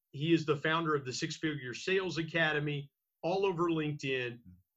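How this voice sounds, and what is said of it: Radio announcer voice. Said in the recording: “your radio announcer voice is fantastic”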